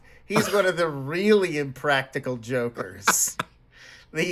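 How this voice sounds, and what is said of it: Usual voice. Nothing is said of it.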